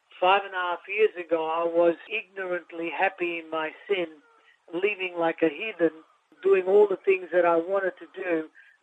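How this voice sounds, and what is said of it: Australian accent. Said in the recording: “you live in Australia, I live in the United States. Which one of us has the accent? ... I think I do.”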